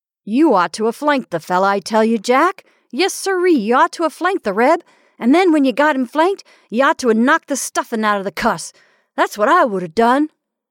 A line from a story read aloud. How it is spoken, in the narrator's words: Duke shouted, laughing boisterously